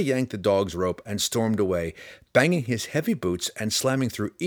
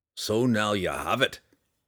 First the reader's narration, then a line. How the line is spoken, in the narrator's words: Bruner said to her roughly